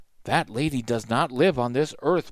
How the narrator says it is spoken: Black Hawk said softly

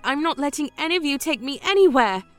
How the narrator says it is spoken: I screamed

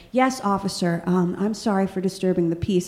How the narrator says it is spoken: very quietly and politely said

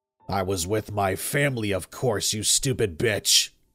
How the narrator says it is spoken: Vladimir said, his voice deepening and turning into a growl

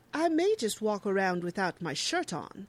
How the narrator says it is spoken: Tony, too, is just thrilled to be one of the youngest people in the group, exclaiming

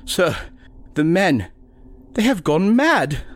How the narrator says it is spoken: the doctor whimpered

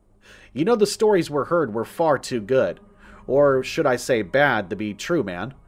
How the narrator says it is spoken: I said

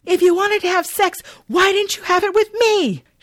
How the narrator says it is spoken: Val, but she is understandably pissed … exclaiming

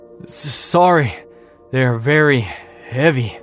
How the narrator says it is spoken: he gasped, pausing to take a breath

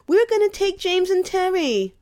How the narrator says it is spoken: Ralphie whined

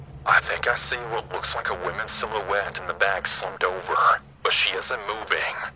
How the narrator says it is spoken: She then says softly on the phone

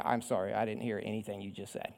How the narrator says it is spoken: mumbling and going on

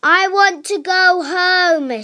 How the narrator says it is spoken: shouted Princess Pip

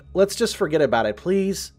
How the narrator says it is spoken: I said

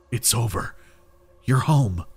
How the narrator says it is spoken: whispering

